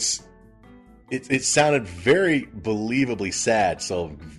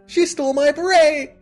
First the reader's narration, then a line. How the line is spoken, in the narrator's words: Screech, Dustin Diamond, in the most very heartfelt, saddest manner he could possibly do, shouts out a little